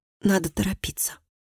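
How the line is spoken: Quiet mumble. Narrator (Russian): Доминик некоторое время молчал, а потом тихо пробормотал

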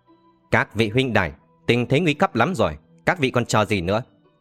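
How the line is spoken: Ringing shout. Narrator (Vietnamese): Hàn Mạc Song Thiếu buông tiếng thét vang

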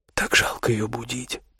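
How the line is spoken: Tender whisper. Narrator (Russian): прошептала Оля с нежностью

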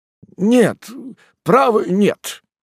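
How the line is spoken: Slightly trembling voice. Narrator (Russian): ответил он несколько дрогнувшим голосом

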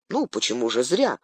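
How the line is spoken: Calm reply. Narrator (Russian): спокойно откликнулся Колоброд

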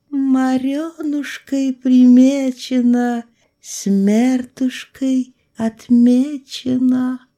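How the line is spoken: Singsong chant. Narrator (Russian): нараспев произнесла

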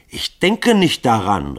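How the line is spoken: Shouted. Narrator (German): rief Grunja

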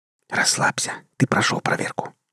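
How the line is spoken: Whisper. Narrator (Russian): шепнула Кира

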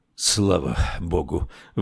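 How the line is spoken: Relieved exhale. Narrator (Russian): выдохнул герцог

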